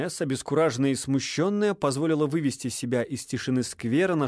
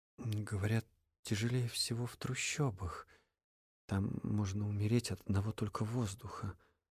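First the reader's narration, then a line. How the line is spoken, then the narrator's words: Muttering aloud. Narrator (Russian): пробормотала вслух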